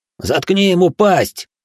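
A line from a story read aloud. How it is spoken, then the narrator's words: Terrified cowardly young man's bark. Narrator (Russian): рявкнул Юэда, тот самый трусоватый парень из Фукуроу, в жутких белых глазах которого до сих пор светился предсмертный ужас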